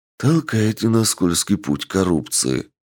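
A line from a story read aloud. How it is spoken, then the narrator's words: Sigh. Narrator (Russian): вздохнул Туадера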